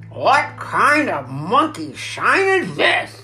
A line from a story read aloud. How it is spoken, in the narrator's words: he growled